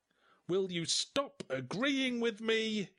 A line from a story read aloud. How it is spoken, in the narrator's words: yelled Barry